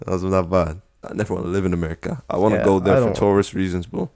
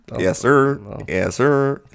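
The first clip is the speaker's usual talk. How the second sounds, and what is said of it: Poor attempted American accent. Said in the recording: “I can pull on an American accent. ... That was awful. ... Awful.”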